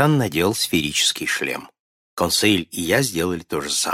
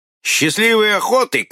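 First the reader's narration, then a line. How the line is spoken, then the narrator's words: Ironic shout. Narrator (Russian): крикнул канадец с иронией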